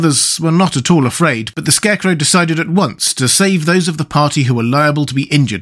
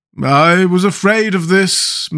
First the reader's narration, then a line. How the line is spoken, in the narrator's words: moaned the Pumpkinhead